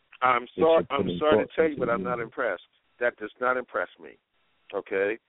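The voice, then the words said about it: Tough gangster-like tone. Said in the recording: “I sound like a gangster”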